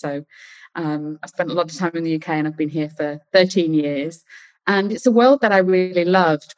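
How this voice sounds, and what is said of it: British accent. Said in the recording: “You can probably hear that I've got a British accent.”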